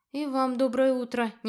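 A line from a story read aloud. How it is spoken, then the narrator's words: Gloomy reply. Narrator (Russian): не менее мрачно отозвалась я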